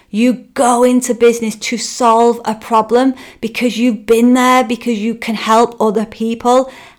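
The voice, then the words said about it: Northern English accent. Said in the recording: “my accent was too northern and too harsh”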